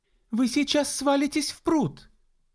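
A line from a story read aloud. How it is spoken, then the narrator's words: Exclaimed. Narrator (Russian): воскликнула Энн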